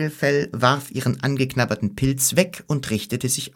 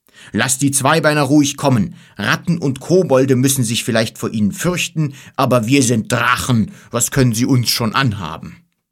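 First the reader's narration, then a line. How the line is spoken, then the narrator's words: Big fat dragon calling. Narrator (German): rief ein großer, dicker Drache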